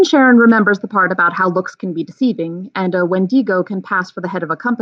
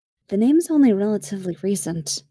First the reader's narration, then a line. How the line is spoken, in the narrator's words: Kelly says quietly